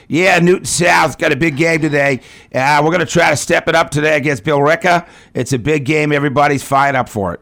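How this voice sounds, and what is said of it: Heavy Boston accent. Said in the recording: “I have this heavy Boston accent”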